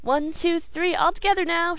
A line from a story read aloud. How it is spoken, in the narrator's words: she cried